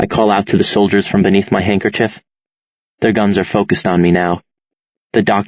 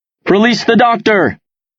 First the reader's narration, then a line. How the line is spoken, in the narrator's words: He shouts